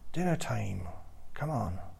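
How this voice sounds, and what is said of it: Irish accent, shouted call. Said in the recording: “in an Irish accent”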